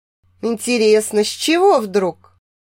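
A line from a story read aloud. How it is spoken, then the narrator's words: Skeptical snort. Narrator (Russian): хмыкнула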